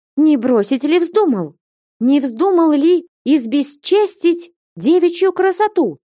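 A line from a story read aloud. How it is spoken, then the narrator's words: Accusing shout. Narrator (Russian): крикнула Фленушка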